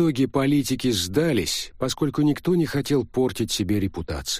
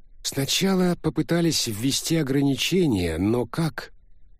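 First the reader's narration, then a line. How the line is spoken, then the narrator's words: Sighing. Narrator (Russian): Филипп вздохнул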